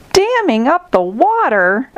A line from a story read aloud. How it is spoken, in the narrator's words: exclaimed Zebra